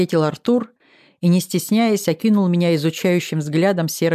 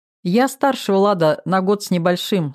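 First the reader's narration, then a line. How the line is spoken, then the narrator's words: Plain. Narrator (Russian): сказала я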